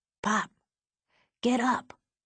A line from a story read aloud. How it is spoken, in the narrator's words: the kid whispered